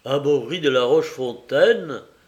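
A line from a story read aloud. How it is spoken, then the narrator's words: Impatient exclamation. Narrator (French): s'écria Coquentin avec impatience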